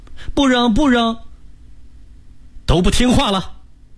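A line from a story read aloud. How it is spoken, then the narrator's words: Children shouting in chorus. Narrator (Chinese): 弟弟妹妹们也齐声嚷道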